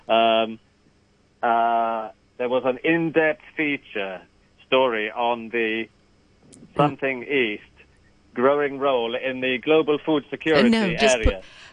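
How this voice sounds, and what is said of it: Attempted foreign accent, poorly done. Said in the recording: “Say it in the accent that we're moving to ... I'm going to be rubbish at this accent ... Russia? Ukraine? ... No. A bit further east.”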